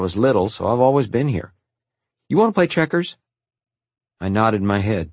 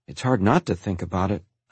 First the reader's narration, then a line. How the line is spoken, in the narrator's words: I murmured